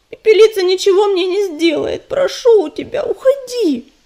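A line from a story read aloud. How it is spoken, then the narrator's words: Pleading. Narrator (Russian): Взмолилась Листвичка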